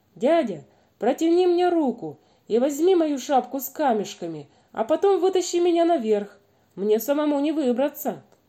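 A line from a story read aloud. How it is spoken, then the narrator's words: Shout. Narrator (Russian): он крикнул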